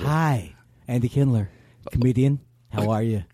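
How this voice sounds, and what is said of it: Mellow podcast-host voice. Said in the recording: “This is my new podcast voice ... Oh, you really go mellower.”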